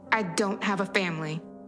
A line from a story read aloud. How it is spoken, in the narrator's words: I snapped